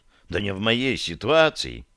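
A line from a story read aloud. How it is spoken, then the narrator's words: Sigh, then continuing. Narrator (Russian): Я вздохнул и продолжил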